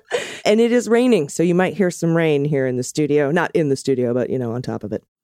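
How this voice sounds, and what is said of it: Slightly hoarse, froggy voice. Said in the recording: “I've got a little bit of a frog in my throat”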